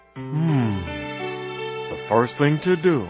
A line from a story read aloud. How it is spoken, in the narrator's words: murmured Horton